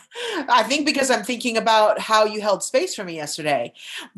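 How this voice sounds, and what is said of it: Choked-up, emotional voice. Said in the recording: “oh, I'm getting choked up.”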